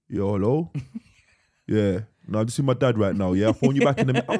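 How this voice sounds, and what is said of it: Deliberately deepened voice. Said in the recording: “He deepens his voice.”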